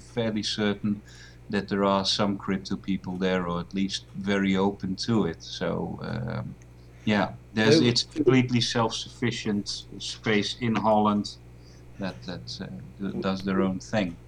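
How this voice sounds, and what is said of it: Dutch accent. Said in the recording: “if you're Dutch ... I am Dutch, yes ... The accent.”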